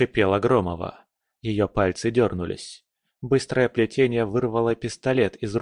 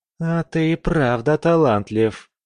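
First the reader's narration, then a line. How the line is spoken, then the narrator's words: Through gritted teeth. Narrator (Russian): процедила она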